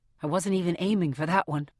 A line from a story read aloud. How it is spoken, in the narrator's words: I mutter